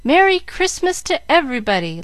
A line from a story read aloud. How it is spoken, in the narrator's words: shouting